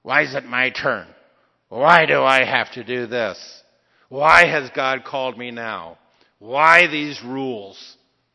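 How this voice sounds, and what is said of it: Whiny, groveling complaining voice. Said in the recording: “That's the grovel in my why voice.”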